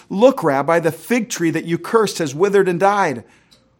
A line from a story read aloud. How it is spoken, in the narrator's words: Peter he exclaimed